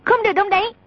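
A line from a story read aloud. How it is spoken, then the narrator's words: Shout. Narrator (Vietnamese): A Tử quát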